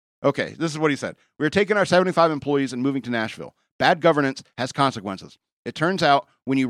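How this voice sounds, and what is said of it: Usual voice. Nothing is said of it.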